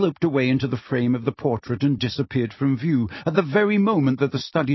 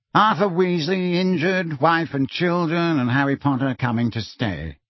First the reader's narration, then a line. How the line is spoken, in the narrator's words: repeated Phineas in a bored voice